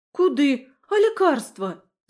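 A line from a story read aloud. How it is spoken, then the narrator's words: Yelling. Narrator (Russian): завопила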